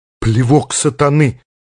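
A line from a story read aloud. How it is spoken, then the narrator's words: Breathed out, machine-gunner. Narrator (Russian): выдохнул пулеметчик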